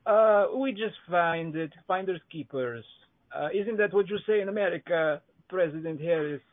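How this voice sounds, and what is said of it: Put-on Iranian-sounding accent. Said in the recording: “if you are at all Iran, I'm telling by your accent”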